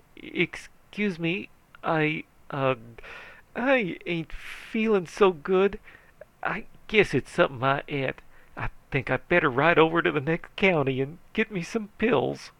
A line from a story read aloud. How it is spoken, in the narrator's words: The sheriff turned pale and swallowed his Adam's apple and says feebly